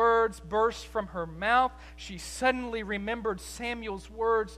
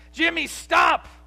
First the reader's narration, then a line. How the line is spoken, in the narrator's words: Amanda shouted